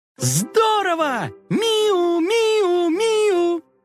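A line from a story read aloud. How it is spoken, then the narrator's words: Joyful shouting. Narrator (Russian): Коржик и Карамелька обрадовались и закричали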